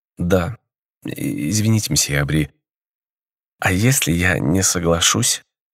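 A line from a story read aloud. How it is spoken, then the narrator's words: Timid question, young woman. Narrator (Russian): робко спросила девушка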